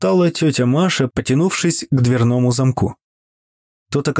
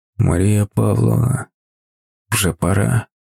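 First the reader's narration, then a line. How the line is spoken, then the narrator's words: Quiet. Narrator (Russian): тихо произнес он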